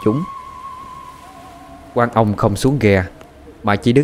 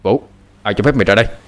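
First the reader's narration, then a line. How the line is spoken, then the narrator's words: Stunned, shouting. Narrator (Vietnamese): Quan ông sững người quát lên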